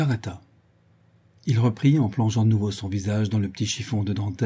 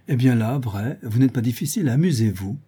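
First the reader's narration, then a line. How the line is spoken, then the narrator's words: Cheerful. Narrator (French): Madame de Gueldre répondit gaiement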